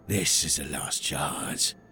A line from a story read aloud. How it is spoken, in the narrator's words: he growled, his amusement at a distant memory